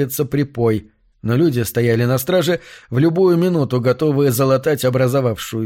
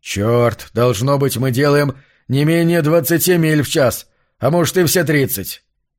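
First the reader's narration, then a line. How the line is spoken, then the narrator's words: Loud, almost shouting. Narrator (Russian): Марш сказал это довольно громко, почти крикнул, как будто громогласным голосом мог воплотить вымысел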